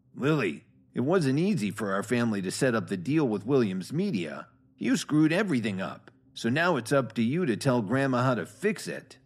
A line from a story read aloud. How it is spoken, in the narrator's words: He sneered and said